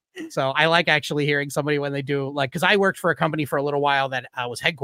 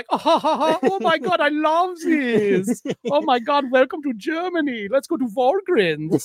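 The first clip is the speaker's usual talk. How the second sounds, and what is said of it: Effeminate German party boy accent. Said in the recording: “effeminate gay yes. German party boy”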